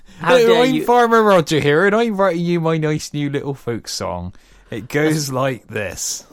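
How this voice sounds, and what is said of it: Put-on West Country farmer accent. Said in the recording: “What, more West Country?... Very regionalist of you there”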